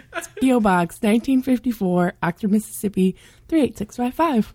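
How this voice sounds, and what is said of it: Sexy, seductive voice. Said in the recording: “giving it a sexy voice”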